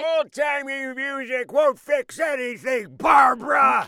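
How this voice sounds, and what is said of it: Yelling, shouting voice. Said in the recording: “Gramps is doing his yelling thing again.”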